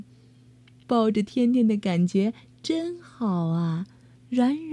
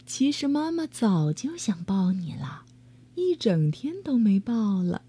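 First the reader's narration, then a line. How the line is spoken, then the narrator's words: Soft, gentle. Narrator (Chinese): 妈妈轻声说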